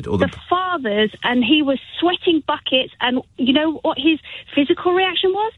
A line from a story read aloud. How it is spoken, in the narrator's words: He shouted the word out louder and faster and with gasping air